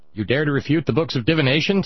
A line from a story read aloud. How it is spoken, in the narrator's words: sputtered the seer